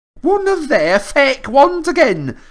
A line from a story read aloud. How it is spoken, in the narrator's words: she shouted